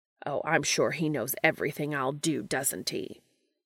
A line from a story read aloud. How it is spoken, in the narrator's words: Castiel snaps